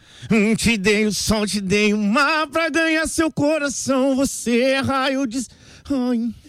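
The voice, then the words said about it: Sings imitating another person's voice. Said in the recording (Portuguese): “imitando o Luan Santana”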